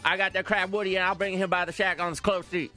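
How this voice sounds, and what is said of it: Put-on mumbled Cajun accent. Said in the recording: “my accent ... that was pretty close ... Cajun is just a bunch of mumbling. It's just deciphering syllables most of the time.”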